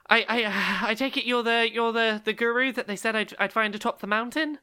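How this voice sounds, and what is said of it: Out of breath, panting. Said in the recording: “I'm a little out of breath.”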